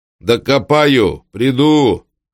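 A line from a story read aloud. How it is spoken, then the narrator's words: Shouted. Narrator (Russian): крикнул Маркел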